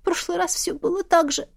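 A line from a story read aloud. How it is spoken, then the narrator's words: Sobbing. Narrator (Russian): Она всхлипнула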